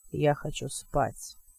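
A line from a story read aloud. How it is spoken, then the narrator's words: Mumbling. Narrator (Russian): пробормотал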